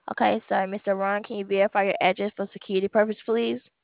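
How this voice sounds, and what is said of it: Very fast speech. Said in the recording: “you're talking so fast.”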